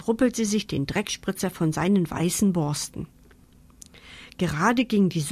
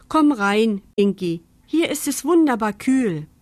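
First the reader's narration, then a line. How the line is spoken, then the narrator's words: Calling out. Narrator (German): Mama rief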